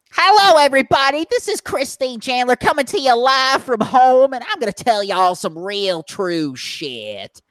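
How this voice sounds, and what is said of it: Angry redneck accent, loud. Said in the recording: “This is probably going to hurt my vocal cords ... in an angry redneck voice”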